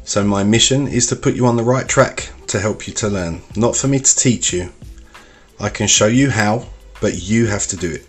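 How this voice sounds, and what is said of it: Cockney London English accent. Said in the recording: “a different accent, Cockney in my case, that you will see quite commonly in London and even other parts of the country”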